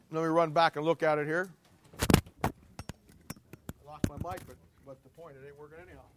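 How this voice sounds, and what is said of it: Strained, fading hoarse voice. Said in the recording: “I'm losing my voice”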